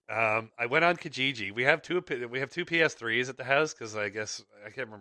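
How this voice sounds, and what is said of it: Scratchy, sick-sounding voice. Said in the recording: “my voice is a little bit scratchy. You guys know I'm still a little bit sick.”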